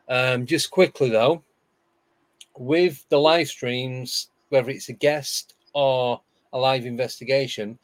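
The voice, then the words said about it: Hoarse, strained voice. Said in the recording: “my throat's gone. My voice is gone.”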